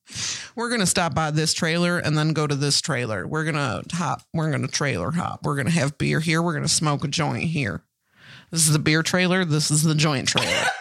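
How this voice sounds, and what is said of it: Imitated Southern-sounding Illinois accent. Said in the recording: “I thought this man was a Southern man. No, he's just from Danville, Illinois ... Where's this accent from? ... That's how they sound, too.”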